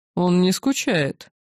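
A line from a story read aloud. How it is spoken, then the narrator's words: Mocking, ancient voice. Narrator (Russian): насмешливо уведомил древний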